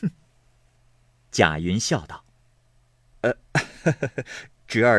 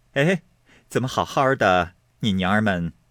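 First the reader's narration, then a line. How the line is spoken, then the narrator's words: Smiling question. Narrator (Chinese): 凤姐满脸是笑，问道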